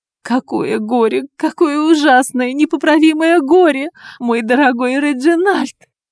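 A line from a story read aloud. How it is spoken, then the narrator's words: Woman sobbing heavily. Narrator (Russian): Женщина рыдала в три ручья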